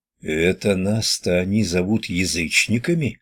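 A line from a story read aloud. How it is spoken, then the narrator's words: Through gritted teeth. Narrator (Russian): процедил Радомысл сквозь зубы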